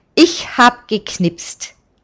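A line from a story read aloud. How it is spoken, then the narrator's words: Laughing. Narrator (German): lacht er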